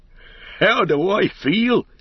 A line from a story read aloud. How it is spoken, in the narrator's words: he cried